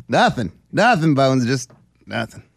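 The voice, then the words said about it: Imitates another person's voice. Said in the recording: “He does a good impression.”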